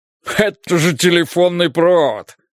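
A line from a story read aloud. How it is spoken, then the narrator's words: Scornful snort. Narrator (Russian): фыркнул сержант Холкомб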